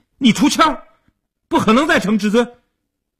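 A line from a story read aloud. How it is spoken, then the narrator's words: Anxious shouting. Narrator (Chinese): 阿生一看急了，大声地嚷道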